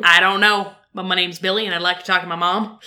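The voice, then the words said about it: Put-on Texas accent. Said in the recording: “Texas accents”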